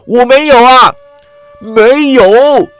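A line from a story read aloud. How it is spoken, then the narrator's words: Crying out. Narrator (Chinese): 郑恒州叫道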